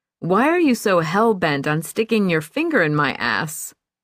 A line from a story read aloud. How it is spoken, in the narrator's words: she tried to make it funny, laughing a bit, as she said